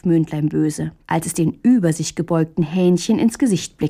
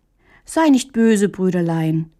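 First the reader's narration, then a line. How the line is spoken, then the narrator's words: Gentle. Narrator (German): erwiderte Hähnchen sanft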